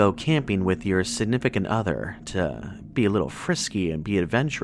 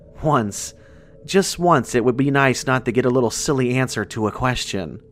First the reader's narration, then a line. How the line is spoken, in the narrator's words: Jane laughed